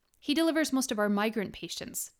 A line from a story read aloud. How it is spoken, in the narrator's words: Dolores answered